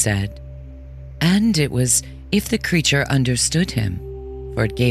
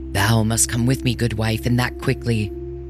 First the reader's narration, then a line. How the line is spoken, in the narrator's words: commanded in his deep, harsh voice